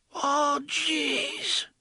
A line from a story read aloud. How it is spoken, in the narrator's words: he whispered in a fainting little voice, and blood began to bubble from his lips